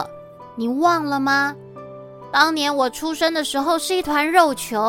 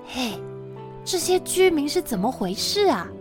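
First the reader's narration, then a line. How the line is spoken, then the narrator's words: Quiet question. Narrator (Chinese): 木吒忍不住小声的问哪吒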